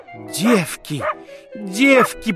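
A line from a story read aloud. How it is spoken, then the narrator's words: Groan. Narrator (Russian): простонала она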